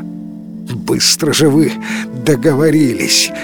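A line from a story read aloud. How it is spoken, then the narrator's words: After laughing. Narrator (Russian): отсмеявшись, сообщил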